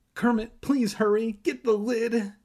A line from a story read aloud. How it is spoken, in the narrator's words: he cried